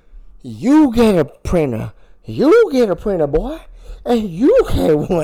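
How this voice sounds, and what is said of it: Imitates another person's voice. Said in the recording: “who do you think you can do the best impression of? ... Do Oprah. ... I don't know what Oprah sounds like”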